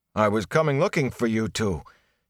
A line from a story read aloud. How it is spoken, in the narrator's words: he panted